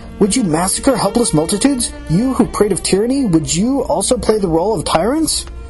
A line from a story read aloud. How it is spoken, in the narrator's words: I cried